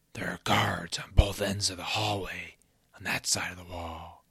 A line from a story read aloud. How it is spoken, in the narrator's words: Groove whispered to Lance